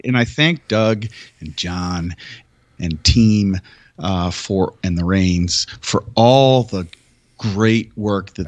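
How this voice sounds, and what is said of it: Nasal Michigan accent. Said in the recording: “I can't stand my voice. It's like this nasal Michigander accent. ... drives people from Kentucky crazy”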